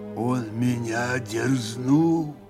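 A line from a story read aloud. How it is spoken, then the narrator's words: Grim, measured. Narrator (Russian): мрачно и раздельно произнес Григорий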